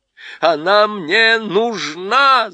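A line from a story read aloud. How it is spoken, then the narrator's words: Shouting. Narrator (Russian): закричал царевич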